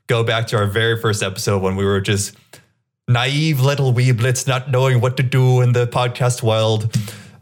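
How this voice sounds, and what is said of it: A put-on, unclear accent. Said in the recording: “I don't know what accent I was going for there.”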